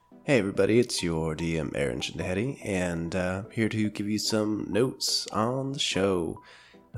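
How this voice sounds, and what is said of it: Sick, worn-out sounding voice. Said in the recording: “If you couldn't tell by my voice, it's been a bit of a rough week ... plague ... my very tired sick brain”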